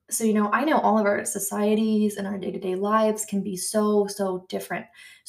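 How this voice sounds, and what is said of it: American accent. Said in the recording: “probably the obvious by my accent. I'm American”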